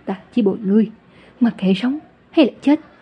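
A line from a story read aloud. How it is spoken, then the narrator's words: Trembling voice. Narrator (Vietnamese): Lâm Nguyên run rẩy nói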